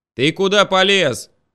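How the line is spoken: Yelling. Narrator (Russian): заорал Шурик

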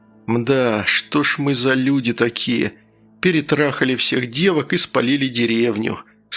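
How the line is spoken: Sad tone. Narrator (Russian): сказал я грустным тоном

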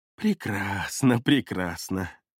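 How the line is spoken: Man laughing. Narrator (Russian): Засмеялся черноволосый даос

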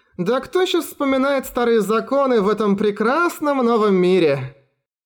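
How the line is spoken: Girl laughing loudly. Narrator (Russian): Захохотала девушка

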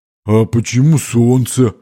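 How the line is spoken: Booming drone. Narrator (Russian): прогудел латник

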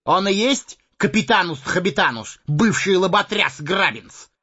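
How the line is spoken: Gruff bandit shout. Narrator (Russian): гаркнул желтолицый бандит

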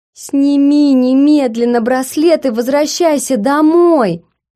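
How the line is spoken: Yelling even louder. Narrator (Russian): завопила Лена пуще прежнего

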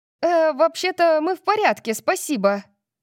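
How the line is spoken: Shouted. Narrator (Russian): крикнула ей Тори

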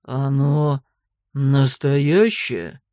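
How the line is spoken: Mouse's sudden deep bass question. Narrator (Russian): вдруг басом спросила мышь

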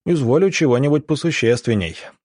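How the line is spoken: Snort. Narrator (Russian): Иван Палыч хмыкнул

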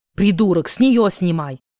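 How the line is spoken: Growled. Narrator (Russian): прорычал Маркелыч

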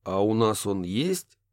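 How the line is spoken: Snorting. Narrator (Russian): хмыкнул О'Салливан

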